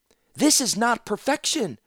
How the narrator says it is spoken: Zancha shouted

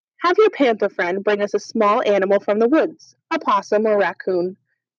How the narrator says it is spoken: she said

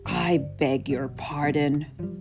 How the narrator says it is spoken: growled the tiger

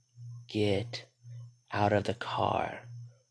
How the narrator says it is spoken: rasped the voice in her head

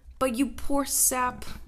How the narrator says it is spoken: cried on hearing his story

